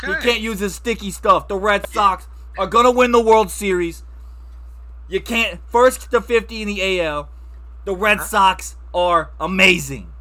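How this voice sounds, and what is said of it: Put-on Boston accent. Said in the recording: “I like the accent that the flavor that you brought ... it made me feel like I was in Boston.”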